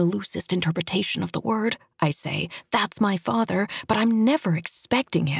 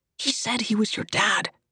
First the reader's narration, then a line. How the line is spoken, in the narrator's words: he hisses